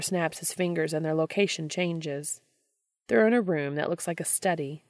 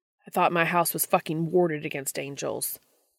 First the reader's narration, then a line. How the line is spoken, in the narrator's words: snaps